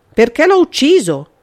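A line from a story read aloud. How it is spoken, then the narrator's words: Shouted. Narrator (Italian): gridò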